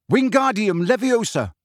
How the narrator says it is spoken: he shouted

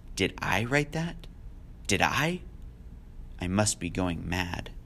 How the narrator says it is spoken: She said in a low voice

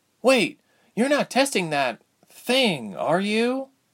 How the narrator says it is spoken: Ilse called, following him timidly

